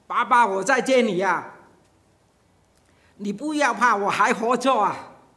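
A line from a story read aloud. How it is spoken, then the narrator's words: Moved, crying loudly. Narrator (Chinese): 他就非常的受感动，哭起来，然后就大声叫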